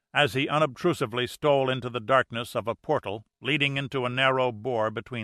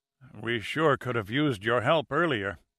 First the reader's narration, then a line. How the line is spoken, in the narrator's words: said Ambrose wearily